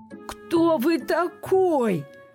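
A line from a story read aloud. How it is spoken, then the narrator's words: Giant's moan. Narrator (Russian): простонал великан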